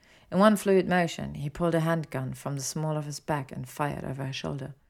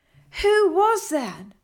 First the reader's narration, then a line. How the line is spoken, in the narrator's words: she shouted